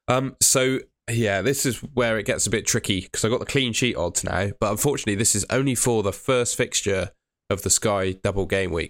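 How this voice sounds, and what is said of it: Strained voice, tickly throat. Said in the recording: “My voice is struggling a little bit. I've got a tickly throat tonight.”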